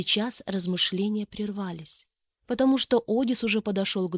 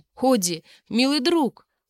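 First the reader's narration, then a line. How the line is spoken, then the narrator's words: Exclamation. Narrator (Russian): воскликнул Факей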